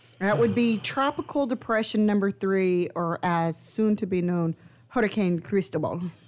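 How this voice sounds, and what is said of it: Fancy put-on accent. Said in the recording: “That's a fancy accent.”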